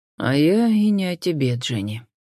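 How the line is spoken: Sad wry chuckle. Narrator (Russian): грустно усмехнулся инспектор Ллойд

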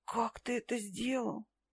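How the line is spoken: Breathless. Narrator (Russian): выдохнула я

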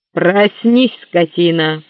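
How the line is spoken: Thundering voice. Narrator (Russian): прогремел чей-то голос

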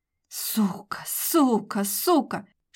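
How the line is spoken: Angry hiss. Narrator (Russian): шипела рыжая

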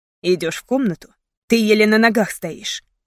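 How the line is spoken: Sharp reproachful retort. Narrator (Russian): резко возразил, как будто упрекал меня в этом

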